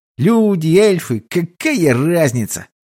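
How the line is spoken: Angry hiss. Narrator (Russian): зло прошипел эльф

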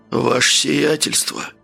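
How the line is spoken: Surprised hoarse question. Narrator (Russian): удивленно спросил хриплым голосом

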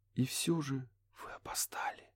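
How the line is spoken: Whisper. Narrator (Russian): прошептала она

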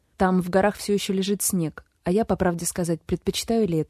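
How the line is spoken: Plain. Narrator (Russian): ответил Гевин

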